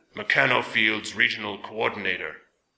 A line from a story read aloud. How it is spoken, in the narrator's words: a gravelly voice intoned